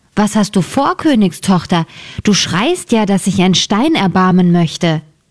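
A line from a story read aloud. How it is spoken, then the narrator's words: Calling out. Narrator (German): rief ihr jemand zu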